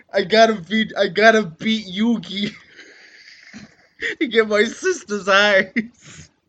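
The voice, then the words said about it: Put-on Brooklyn accent. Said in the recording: “with a Brooklyn accent going, I gotta get my sister's eyesight back”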